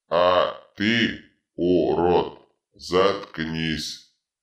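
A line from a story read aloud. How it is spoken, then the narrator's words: Power-drunk bark. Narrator (Russian): рявкнул опьяневший от власти Дитрит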